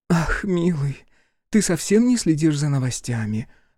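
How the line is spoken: Languid sigh. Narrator (Russian): Агриппина томно вздохнула

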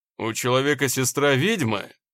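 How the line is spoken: Snorting. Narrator (Russian): он фыркнул

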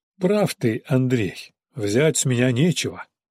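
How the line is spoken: Sighed. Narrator (Russian): вздохнул Илька

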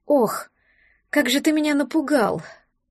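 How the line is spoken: Breathless exhale. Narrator (Russian): выдохнула Берта

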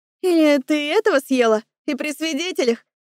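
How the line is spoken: Short laugh. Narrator (Russian): хохотнула она

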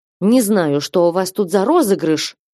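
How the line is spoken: Indignant. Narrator (Russian): возмущенно сказала

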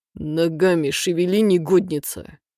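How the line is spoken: Growling into ear. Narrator (Russian): рычал он мне в ухо

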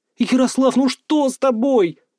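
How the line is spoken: Wailing girl. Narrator (Russian): взвыла девушка

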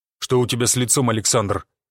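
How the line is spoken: Stern inquiry. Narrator (Russian): строго осведомился Гвоздев

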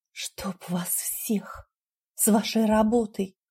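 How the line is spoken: Quiet grumble. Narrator (Russian): Проворчала я тихо

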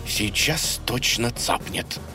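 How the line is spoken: Frightened mutter. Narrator (Russian): испуганно пробормотал дружок

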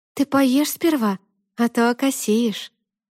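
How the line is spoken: Sad smiling voice. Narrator (Russian): грустно улыбнулась Алиса

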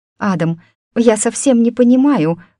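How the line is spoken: Pleading. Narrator (Russian): взмолилась Амалия

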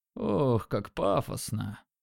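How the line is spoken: Lazy dripping sarcasm. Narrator (Russian): Лениво сказал он, его голос сочился сарказмом

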